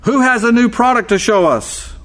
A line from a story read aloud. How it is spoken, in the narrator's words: the executive over sporting goods grabbed the microphone and screamed